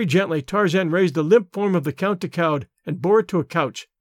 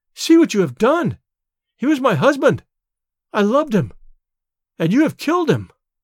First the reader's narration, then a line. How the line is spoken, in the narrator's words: she cried